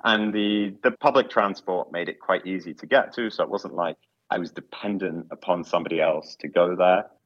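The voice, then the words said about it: London accent. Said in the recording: “I live in London. I can probably tell from my accent”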